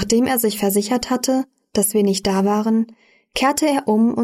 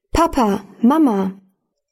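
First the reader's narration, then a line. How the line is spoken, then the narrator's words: Calling out again. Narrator (German): Wieder rief er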